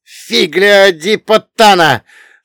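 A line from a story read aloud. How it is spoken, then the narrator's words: Roared. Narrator (Russian): взревел Чиро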